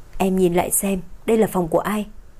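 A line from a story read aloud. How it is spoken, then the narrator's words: Cold, husky, sleepy, annoyed. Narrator (Vietnamese): Anh lạnh lùng, cất giọng trong trẻo nhưng lạnh lùng, pha chút khàn khàn ngái ngủ, buồn bực nói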